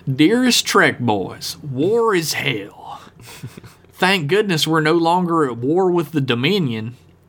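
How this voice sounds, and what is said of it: Put-on Southern accent. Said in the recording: “slipping into a southern accent of some sort”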